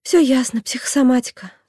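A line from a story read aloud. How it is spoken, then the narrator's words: Sighing. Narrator (Russian): вздохнула доктор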